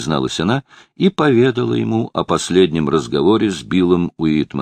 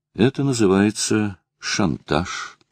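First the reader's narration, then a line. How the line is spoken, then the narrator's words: Quiet. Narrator (Russian): тихо проговорила Лара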